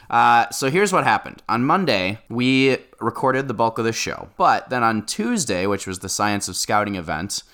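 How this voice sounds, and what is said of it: Deeper voice, sounds unwell. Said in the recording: “my voice is a little deeper than usual. I'm a little under the weather”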